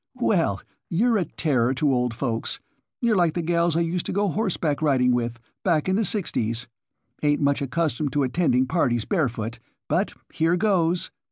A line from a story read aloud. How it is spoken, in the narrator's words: Ezra Stowbody cackled